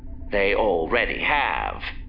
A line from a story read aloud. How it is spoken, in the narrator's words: Roscoe said, her voice now going dark